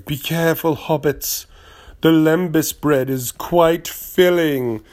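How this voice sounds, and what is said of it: Cate Blanchett impression. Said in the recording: “That's not a good Cate Blanchett impression ... Cate Blanchett has never said, be careful, like Tony the Tiger. She probably said something like”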